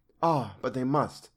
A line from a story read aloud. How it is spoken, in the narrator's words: She laid her hand on mine and said very gravely